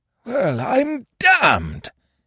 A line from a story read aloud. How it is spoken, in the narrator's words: he gasped